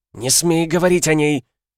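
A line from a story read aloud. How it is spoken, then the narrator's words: Angry exclamation. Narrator (Russian): Гневно воскликнула Акума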